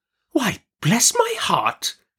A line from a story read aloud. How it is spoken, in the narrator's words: exclaimed Miss Betsy